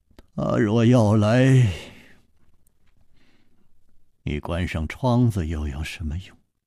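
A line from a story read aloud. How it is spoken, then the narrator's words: Sighing. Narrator (Chinese): 楚留香又叹道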